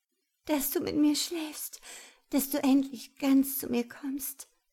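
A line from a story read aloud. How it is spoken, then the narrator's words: Desperate pleading. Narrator (German): flehte sie verzweifelt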